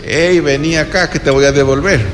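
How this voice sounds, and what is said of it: Rustic, crude voice for Franco. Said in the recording (Spanish): “No habrá hablado así tan rústicamente. ... Me imagino que habrá tenido un mejor acento.”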